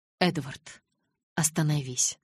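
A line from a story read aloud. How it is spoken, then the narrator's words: Calm yet forceful. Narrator (Russian): спокойно повторила девушка, однако в ее голосе зазвучала сила, которой я прежде не замечала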